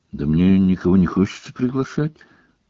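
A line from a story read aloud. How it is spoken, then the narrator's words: Mumbling. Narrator (Russian): промямлил Гарри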